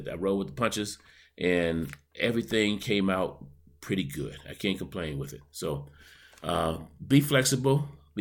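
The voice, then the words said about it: Heavier voice, sore throat. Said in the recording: “I've got a little bit of a sore throat, so I may sound a little heavier than I normally do.”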